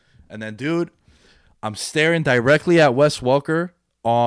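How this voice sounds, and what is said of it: Usual voice. Nothing is said of it.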